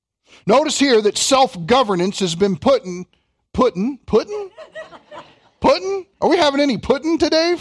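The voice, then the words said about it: Kentucky accent. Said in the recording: “that's what happens when the Kentucky accent flies out there”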